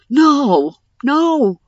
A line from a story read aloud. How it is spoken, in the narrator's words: Darsh shouted